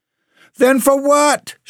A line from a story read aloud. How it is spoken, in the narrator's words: shouted the shoemaker